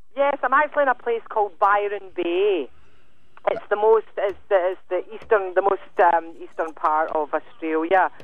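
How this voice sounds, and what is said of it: Speaks with a distinct accent. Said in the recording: “you haven't lost your accent. ... Not for a minute”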